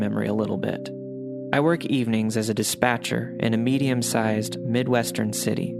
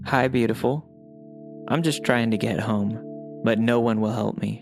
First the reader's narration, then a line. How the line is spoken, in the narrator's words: she said